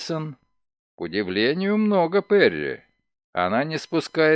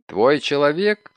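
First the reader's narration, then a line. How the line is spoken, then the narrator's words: Plain. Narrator (Russian): спросил Мейсон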